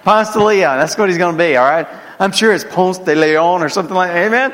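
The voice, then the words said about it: Southern American accent. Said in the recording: “that's got to be in my southern accent”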